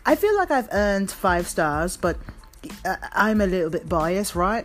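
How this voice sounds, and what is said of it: Put-on British accent. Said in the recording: “there's my British accent.”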